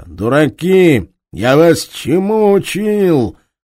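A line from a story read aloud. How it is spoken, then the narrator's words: Nasal shout. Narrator (Russian): Носатый крикнул заметно гнусавя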